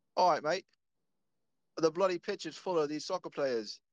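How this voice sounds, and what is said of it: Put-on English accent. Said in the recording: “English accent like from the UK”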